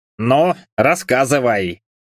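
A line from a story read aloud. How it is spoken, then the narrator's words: Amused grunt. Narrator (Russian): хмыкнул Джимми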